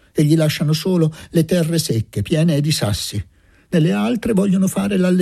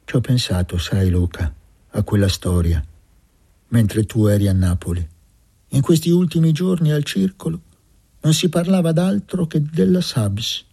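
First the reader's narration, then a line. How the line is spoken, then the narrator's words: Dull voice after vehemence. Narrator (Italian): che aveva parlato con una foga insolita in lui, aggiunse con voce opaca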